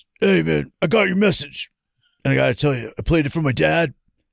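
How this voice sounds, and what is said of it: Poor impression of Randy. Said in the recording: “my shitty fucking Randy impression”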